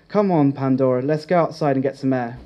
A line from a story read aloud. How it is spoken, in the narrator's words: Freya said